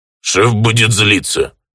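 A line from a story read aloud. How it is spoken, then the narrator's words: Grumbling. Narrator (Russian): проворчал Бисквит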